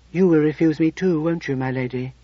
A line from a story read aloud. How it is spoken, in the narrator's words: he asked quietly